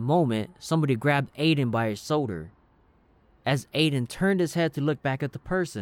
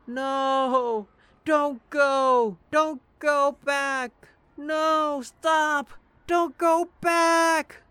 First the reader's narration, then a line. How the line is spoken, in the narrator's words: Aiden kept screaming